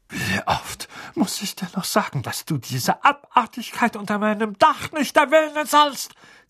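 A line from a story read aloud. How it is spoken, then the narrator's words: Furious hiss. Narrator (German): zischte, das Gesicht von der Farbe einer reifen Pflaume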